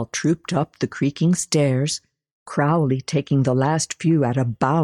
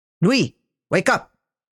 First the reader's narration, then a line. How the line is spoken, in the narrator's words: he bellowed, little remaining of the honeyed tones in which he had addressed her earlier